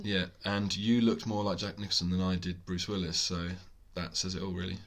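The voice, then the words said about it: Deep, congested voice. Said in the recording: “I've now inherited said cold... So I'm doing my best Barry White impression.”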